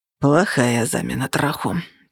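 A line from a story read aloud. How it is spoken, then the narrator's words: Grumbling. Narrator (Russian): проворчал он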